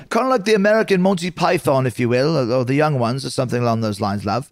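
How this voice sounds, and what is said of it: Put-on accent. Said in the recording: “What a beautiful accent.”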